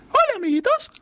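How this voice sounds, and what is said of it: Cartoon mouse character voice. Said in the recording (Spanish): “hacer la voz de el ratoncito ... El ratoncito Mickey.”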